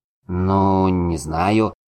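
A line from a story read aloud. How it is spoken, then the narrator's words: Bewildered drawl. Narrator (Russian): растерянно протянул Дуэнт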